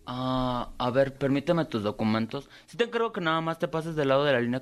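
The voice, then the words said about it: Character voice of a gossipy friend. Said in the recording (Spanish): “hacer la voz de Nayeli”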